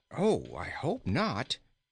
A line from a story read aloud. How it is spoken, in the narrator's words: exclaimed Inga, distressed at the thought